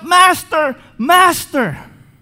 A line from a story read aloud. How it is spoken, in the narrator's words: cried out